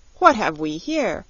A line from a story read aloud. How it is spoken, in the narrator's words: asked the Queen sharply